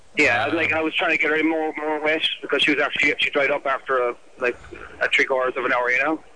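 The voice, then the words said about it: Irish accent. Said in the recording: “What's the accent here? ... Gaelic or something. ... Where's the accent from? ... Ireland.”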